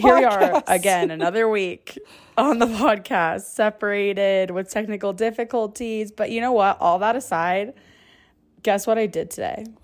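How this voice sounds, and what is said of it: Weak, recovering hoarse voice. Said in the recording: “if my voice goes away halfway through this episode ... I lost my voice, and now it's slowly coming back.”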